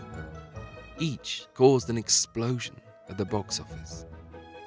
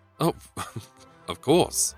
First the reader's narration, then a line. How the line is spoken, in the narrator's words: stammered the officer